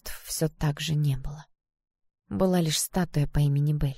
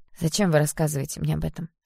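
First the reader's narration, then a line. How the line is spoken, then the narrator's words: Sharp question. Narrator (Russian): спросила я резко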